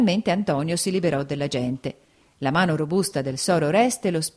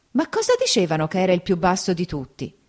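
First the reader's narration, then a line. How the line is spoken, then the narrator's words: Exclaimed. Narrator (Italian): la moglie d'Agenore esclamò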